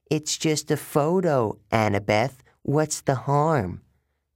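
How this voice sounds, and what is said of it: Bad imitation of a boy's voice. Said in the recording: “In a bad imitation of my voice”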